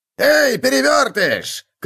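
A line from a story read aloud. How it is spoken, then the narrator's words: Shout. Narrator (Russian): крикнул он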